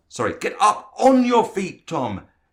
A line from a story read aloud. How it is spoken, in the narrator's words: Frank shouted